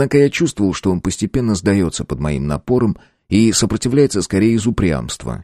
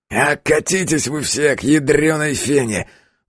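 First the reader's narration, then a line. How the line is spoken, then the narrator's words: Sudden breathed-out words. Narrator (Russian): Вдруг выдохнул он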